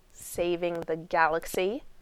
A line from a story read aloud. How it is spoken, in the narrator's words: Rodney said bitterly